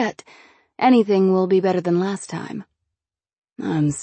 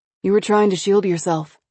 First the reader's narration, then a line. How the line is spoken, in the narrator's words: he said quickly, cutting me off